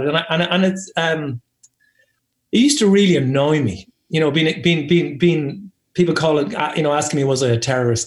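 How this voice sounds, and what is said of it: Irish accent. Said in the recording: “because I'm Irish ... as soon as people would hear my accent”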